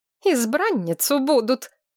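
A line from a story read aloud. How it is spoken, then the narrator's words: Angry exhale. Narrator (Russian): зло выдохнула Корнелия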